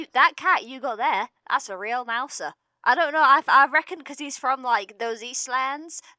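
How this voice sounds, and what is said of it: Put-on accent slipping into American. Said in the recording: “you went American for a minute there ... are you secretly a cowboy?”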